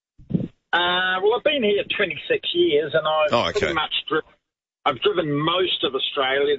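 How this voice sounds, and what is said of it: New Zealand accent. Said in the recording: “you've got a New Zealand accent”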